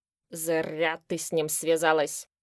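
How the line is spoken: Grumbling. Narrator (Russian): ворчал Кукман

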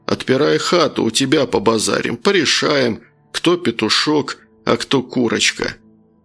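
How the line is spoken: Calm suggestion. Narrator (Russian): один из его доселе незнакомых подельников довольно спокойно предложил

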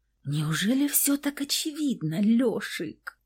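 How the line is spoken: Embarrassed mutter. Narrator (Russian): пробормотала смущенно

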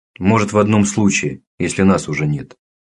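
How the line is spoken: Plain. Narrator (Russian): сказал дядя Лёва

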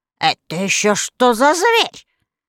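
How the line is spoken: Angry witch asking. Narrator (Russian): сердито спросила злая волшебница

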